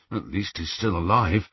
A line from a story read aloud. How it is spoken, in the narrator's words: muttered Ron